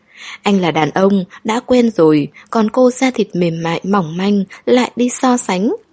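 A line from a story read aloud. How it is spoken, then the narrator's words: Startled laugh. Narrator (Vietnamese): Viêm Trì hơi giật mình, bật cười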